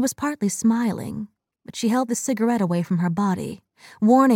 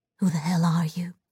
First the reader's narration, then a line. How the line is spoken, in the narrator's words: she said quietly